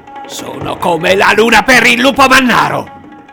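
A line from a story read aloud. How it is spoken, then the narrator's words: Almost shouting. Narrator (Italian): gli ho quasi urlato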